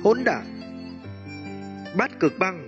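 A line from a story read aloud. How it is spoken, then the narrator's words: Low, deep muted shout. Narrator (Vietnamese): Một tiếng quát trầm muộn khẽ vang lên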